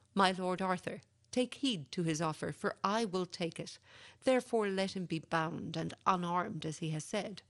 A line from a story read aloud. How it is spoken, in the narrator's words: Sir Meliagrance cried